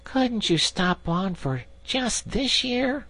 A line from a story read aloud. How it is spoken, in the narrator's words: suggested the Water Rat wistfully